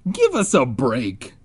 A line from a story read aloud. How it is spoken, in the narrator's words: Ben groaned